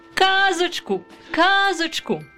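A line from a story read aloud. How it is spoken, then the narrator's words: Children shouting. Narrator (Ukrainian): закричали діти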